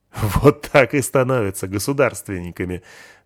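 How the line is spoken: Laughing. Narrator (Russian): засмеялся

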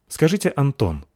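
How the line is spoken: Quick, suddenly harsh question. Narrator (Russian): быстро спросил Александр Анатольевич внезапно жестким тоном

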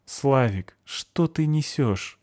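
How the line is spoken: Weary question. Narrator (Russian): устало спросил я

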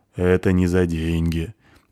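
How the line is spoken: Deep bass voice. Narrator (Russian): пробасил могучий полуогр

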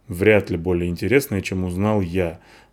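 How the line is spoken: Muttered gruffly. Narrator (Russian): буркнул Вар

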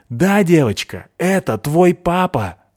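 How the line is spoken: Shout. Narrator (Russian): закричал он

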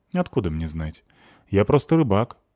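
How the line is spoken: Calm answer. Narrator (Russian): ответил человек спокойно

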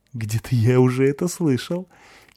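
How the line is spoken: Giggling. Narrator (Russian): хихикнув, Славик

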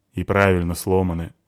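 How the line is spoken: Grumbling mutter. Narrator (Russian): буркнул Славик

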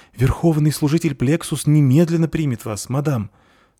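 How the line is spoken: Frightened. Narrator (Russian): сказала она испуганно

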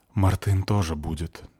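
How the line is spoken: Sad. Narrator (Russian): грустно сказала Марта

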